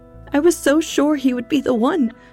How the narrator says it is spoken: she cried

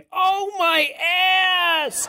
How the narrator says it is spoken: yelling about how my ass hurts

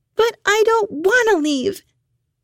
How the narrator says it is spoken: Hannah screamed

